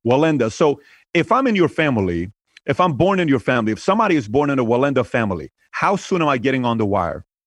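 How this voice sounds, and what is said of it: Assyrian and Persian accented English. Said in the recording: “My accent is hurting me from pronouncing it properly. ... Excuse my Assyrian and Persian accents”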